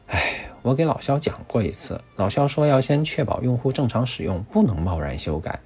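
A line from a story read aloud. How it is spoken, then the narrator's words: Sighing. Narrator (Chinese): 子言叹了口气说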